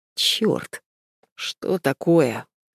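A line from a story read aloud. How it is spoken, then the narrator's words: Sleepy mumble. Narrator (Russian): Сонно бубнит он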